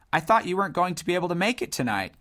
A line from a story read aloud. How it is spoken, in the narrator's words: continued Tretacello cheerfully